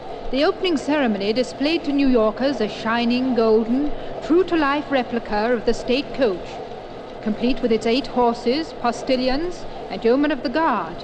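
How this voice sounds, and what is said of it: British accent. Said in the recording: “I am British, as you may gather from my accent”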